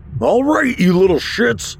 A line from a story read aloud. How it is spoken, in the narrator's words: I bellowed